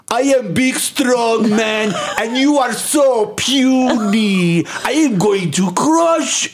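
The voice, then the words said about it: Exaggerated big strong man voice. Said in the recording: “this guy who sounded ridiculous ... I'm doing a perfect imitation of him”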